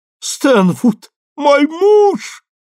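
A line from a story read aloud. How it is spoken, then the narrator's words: Shrieking. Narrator (Russian): завизжала она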